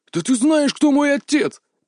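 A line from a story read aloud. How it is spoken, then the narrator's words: Failed growl, pitiful. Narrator (Russian): попытался грозно рыкнуть Кенда, но получилось у него весьма жалобно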